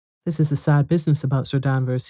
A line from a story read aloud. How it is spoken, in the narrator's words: he said